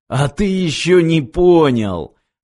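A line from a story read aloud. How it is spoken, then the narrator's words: Question after laughing. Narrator (Russian): спросил, отсмеявшись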